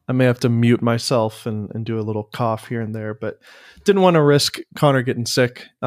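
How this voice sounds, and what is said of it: Slightly congested voice. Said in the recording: “I am getting over a bit of a cold ... if I sound a little congested ... You sound a lot better today.”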